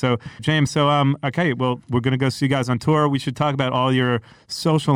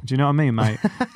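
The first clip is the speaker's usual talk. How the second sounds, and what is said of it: Put-on British accent. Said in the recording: “I love the British accent ... I'm throwing the accent in”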